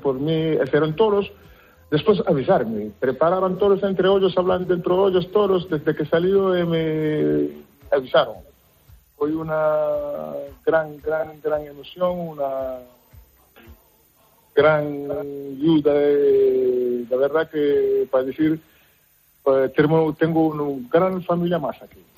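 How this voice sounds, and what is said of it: Strong Galician Spanish accent. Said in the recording (Spanish): “tienes acento gallego ya ... Pero mucho acento gallego ... es un acento tan tan bonito, tan tierno”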